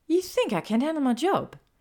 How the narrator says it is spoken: Hermione snapped

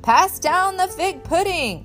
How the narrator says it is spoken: Uncle Eddie cried

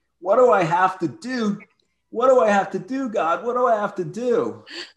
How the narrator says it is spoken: he screams

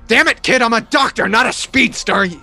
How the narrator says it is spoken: McCoy yells back

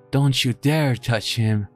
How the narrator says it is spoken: screamed back

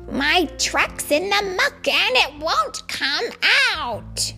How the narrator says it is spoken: the shout

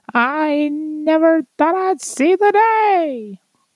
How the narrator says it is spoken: cried Crick, weeping tears of joy

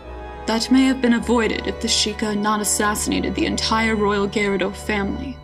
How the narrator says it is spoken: Ganondorf replied coolly

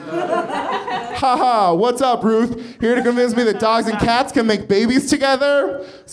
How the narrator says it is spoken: Scalia laughed heartily

